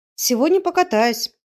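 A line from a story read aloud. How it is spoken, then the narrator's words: Cheerful. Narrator (Russian): весело сообщила она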